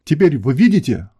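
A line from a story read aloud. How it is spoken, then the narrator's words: Exclaimed. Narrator (Russian): воскликнул британский премьер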